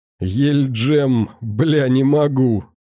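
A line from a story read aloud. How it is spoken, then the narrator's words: Forced out after laughing fit. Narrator (Russian): Спустя несколько минут припадка смог выдавить, вытирая слезы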